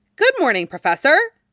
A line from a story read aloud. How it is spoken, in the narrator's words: she chirped